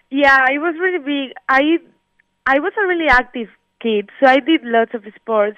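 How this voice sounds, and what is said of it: Spanish accent mixed with Florida English. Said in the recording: “I have this accent, because I learned my English in Florida, and over there everyone has this accent ... your accent was because you're from Spain ... it's a mix of both”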